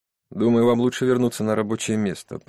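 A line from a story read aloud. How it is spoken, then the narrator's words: Grumbling general. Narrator (Russian): проворчал генерал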